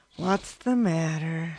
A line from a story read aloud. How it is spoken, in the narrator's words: Stacy asked, his voice wary